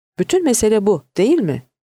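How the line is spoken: Crying out. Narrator (Turkish): diye haykırdı Patricia

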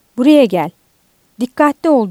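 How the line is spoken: Shouting in vain. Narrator (Turkish): diye boş yere bağırdı

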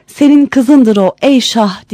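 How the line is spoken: Crying out. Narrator (Turkish): diye haykırmış

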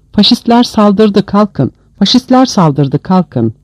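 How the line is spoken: Shouted. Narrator (Turkish): bağırtısı

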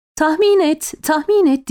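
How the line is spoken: Women shouting. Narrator (Turkish): diye bağırdı hanımlar

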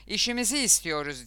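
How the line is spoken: Shouting. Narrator (Turkish): diye bağırıp

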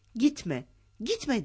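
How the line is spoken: Shouting. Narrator (Turkish): diye bağırmaya başladı

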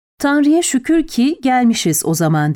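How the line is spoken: Plain. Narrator (Turkish): dedi

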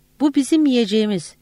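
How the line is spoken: Group shouting. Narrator (Turkish): diye bağırıyorlardı

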